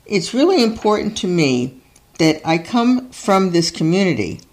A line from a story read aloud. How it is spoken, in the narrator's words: Plattner tells them, his voice faltering